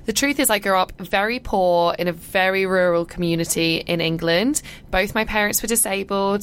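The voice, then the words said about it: English BBC-style accent. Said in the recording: “I've got like a BBC accent”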